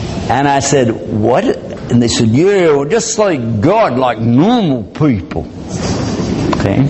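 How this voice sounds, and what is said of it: Usual voice. Nothing is said of it.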